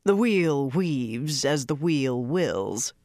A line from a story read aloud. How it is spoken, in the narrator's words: Rand said coolly, as though he noticed nothing